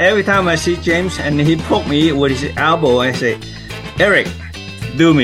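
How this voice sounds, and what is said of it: Usual voice. Nothing is said of it.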